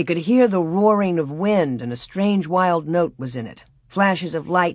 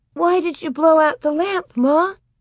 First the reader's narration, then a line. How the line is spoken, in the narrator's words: Grace almost whimpered